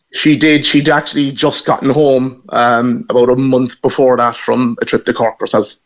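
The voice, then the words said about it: Irish Cork accent. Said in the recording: “I hear your accent ... You're from Cork. And from that accent”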